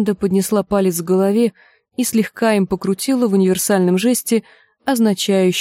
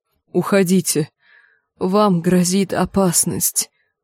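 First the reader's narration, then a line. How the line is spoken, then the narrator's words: Moaning. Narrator (Russian): простонал Нат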